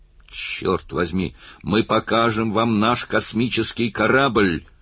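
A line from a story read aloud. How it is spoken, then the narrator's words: Roaring. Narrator (Russian): взревел капитан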